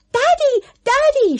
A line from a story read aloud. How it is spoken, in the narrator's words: shrieked Moon